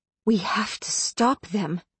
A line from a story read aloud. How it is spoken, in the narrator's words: I whispered to Knox